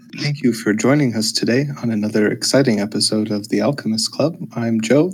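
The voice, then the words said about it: Mock public-radio announcer voice. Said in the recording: “This is my NPR voice.”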